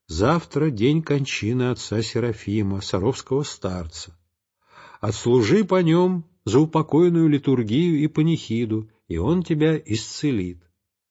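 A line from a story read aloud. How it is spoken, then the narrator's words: Quiet mysterious voice. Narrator (Russian): кто-то тихо говорит мне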